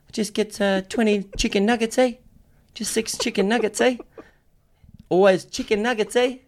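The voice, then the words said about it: Soft-spoken put-on New Zealand accent. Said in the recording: “my Kiwi accent is a massive ... big Māori dude going through a Macca's drive-thru ... Real soft-spoken, gentle giant”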